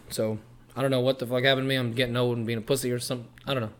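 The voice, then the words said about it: Hoarse, nearly lost voice. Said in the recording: “I haven't had a voice. This is the most I've fucking been able to hear myself ... screaming at the top of our lungs”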